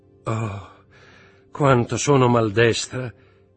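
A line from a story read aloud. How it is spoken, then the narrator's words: Tired voice. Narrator (Italian): disse con voce stanca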